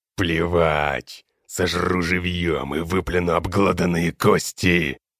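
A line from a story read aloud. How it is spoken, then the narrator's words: Bestial growl. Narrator (Russian): По-звериному зарычал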